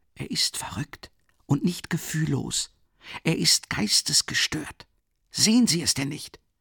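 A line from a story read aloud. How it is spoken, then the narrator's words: Urgent whisper in ear. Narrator (German): flüsterte Rasumichin ihr heiß ins Ohr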